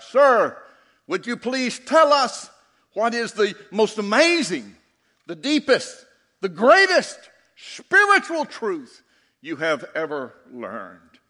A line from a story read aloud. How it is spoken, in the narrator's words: One of the young theologians called out